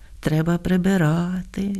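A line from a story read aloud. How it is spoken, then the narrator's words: Sighed. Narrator (Ukrainian): зітхнула Софрониха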